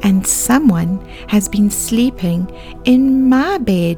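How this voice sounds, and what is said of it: Tiny, squeaky high voice. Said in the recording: “Baby Bear squeaked in his tiny little voice.”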